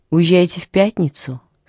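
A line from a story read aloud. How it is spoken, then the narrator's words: Plain question. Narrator (Russian): спросила она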